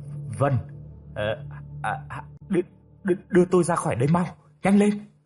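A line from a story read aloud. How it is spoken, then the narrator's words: Stammering urgently. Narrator (Vietnamese): Hắn liền lắp bắp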